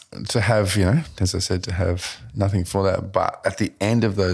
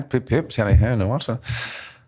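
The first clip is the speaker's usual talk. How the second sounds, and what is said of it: Put-on English accent. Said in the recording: “We need an English accent. Okay, we'll do that.”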